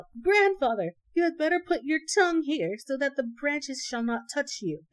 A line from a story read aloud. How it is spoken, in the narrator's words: he called out